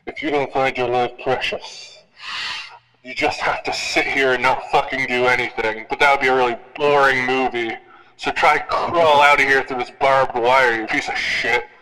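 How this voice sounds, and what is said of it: Imitated horror villain voice. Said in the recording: “do the Saw voice.”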